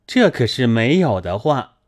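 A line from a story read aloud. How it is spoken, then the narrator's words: Laughing. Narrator (Chinese): 秦钟笑道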